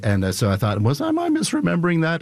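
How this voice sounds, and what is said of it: Voice jumps up in pitch. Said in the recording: “my voice went up like about an octave there”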